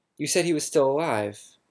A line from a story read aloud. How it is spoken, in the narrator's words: I exclaimed